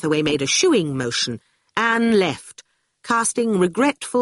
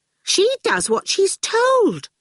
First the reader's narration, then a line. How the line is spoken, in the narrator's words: Orful exclaimed in surprise